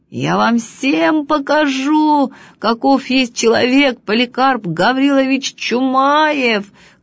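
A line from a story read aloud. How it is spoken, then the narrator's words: Shouting. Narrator (Russian): кричал он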